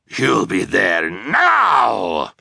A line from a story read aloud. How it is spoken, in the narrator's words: Olaf growled